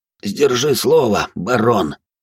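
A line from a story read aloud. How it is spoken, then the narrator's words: Hoarse voice. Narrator (Russian): хрипло произнес Навар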